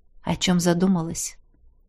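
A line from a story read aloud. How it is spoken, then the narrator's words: Whisper close to ear. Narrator (Russian): шепнул Кар, наклонившись к самому моему уху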